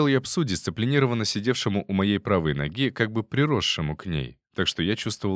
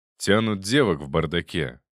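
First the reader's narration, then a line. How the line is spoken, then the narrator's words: Grumbled. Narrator (Russian): пробурчал Смольников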